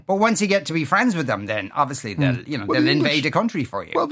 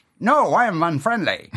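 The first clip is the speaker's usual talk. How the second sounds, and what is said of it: Put-on German accent. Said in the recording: “That's my German accent.”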